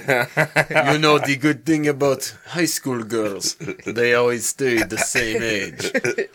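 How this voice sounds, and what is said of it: Poor Russian accent, sounding Middle Eastern. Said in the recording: “said that in a Russian accent ... I'm not the best with accents ... every accent with ... it has like a tinge of what it's supposed to be, and then the rest is Middle Eastern”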